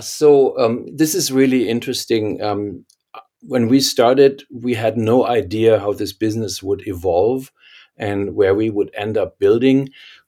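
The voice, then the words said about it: German accent. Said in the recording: “I can't hide my German accent, of course.”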